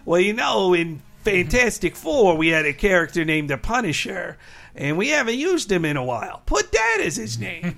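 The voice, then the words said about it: Imitates another person's voice. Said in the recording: “not a bad impression. ... Best Stan Lee I've ever done.”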